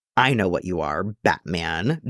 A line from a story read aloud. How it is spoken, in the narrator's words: Jason sneers